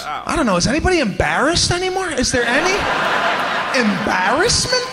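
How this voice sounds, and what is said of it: Hardcore New York accent. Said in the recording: “He kind of sounds like a cross between Adam Sandler and every hardcore New York accent guy you've ever heard. ... I'm playing it up.”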